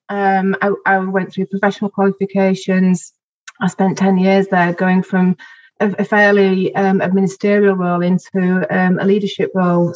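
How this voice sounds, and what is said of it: Regional accent from Bingley. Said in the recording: “It was bad for Bingley, you might be able to tell from my accent”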